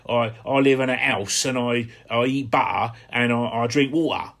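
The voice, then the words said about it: Put-on Hampshire regional accent. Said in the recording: “I used to talk like that all the time, a bit of an accent. ... My mum used to say, can't you say water and house?”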